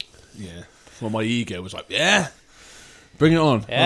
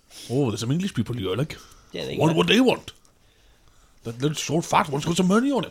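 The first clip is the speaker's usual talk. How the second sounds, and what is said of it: Put-on Welsh accent. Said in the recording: “I can't do a Welsh accent. you do it.”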